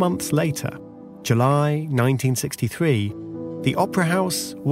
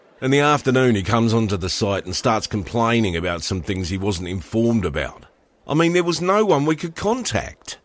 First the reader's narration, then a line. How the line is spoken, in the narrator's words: grumbled the Arup engineer